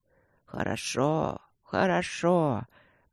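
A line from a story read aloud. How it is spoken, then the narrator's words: Old man mumbling. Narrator (Russian): пробормотал старик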